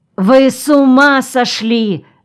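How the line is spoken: Yelled. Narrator (Russian): заорал Аникей

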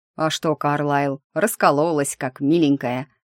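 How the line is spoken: Snorting sergeant. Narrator (Russian): фыркнул старшина

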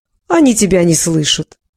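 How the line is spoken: Loud laughter breaking into cough. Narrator (Russian): засмеялась еще громче, но ее смех оборвался и перешел в кашель

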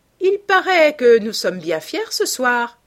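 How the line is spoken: Sneering. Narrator (French): ricana-t-elle

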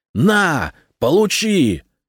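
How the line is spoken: Yelling. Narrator (Russian): заорал Фирус

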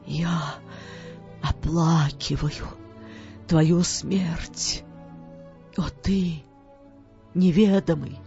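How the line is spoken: Whispering. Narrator (Russian): шептал

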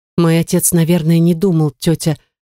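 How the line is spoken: Soft, holding back tears. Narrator (Russian): проговорила Эмилия мягко и стараясь удержаться от слез

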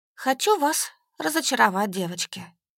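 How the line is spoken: Sighing statement. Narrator (Russian): вздохнув, сказала

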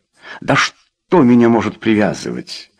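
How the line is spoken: Impatient snap. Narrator (Russian): нетерпеливо огрызнулся Рой

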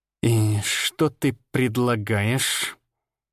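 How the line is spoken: Through gritted teeth. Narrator (Russian): процедил Арий сквозь зубы

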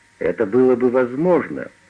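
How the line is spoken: Plain. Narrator (Russian): сказал Уатт

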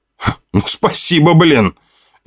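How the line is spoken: Indignant. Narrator (Russian): Я возмутился

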